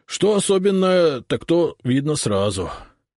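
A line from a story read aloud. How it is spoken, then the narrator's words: Sighing. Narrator (Russian): вздохнул урядник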